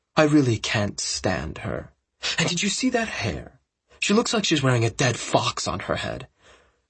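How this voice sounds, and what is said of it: Smug accented character voice. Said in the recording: “in that smug accent”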